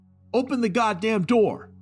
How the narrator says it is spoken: I screamed

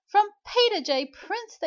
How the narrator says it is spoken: shrieked with a thrill

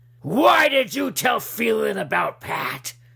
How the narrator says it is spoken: Walsh shouted

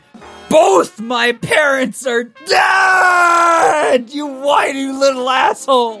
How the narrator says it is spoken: yelling

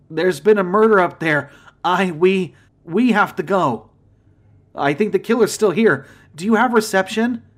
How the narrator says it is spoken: I asked desperately

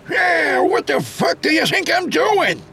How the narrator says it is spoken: Ellis yelled back

